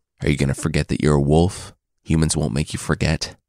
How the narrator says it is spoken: Gray Brother asked

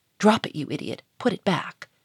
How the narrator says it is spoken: without moving a muscle of his face, set in its perpetual beaming smile, he hissed in an angry whisper

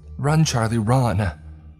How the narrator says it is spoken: the girls cried out in high, frightened tones

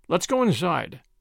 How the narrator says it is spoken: said Major Putnam, rather sharply

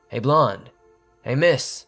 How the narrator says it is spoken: a male voice called out

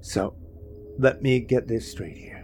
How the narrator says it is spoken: he said, sighing

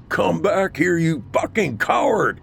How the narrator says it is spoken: Sergeant Halfley screamed loud enough to shake the earth

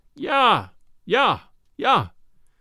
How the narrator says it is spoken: the mate would climb up in the rigging to mock us and yell

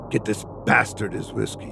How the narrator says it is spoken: he growled

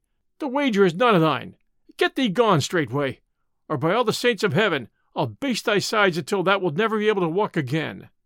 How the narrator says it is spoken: cried he

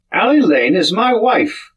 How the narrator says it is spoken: cried Sands hotly

